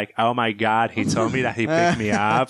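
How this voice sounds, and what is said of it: Valley girl accent. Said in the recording (Hebrew): “היא עשתה מבטא של ואלי גרל”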